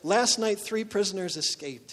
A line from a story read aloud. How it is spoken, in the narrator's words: said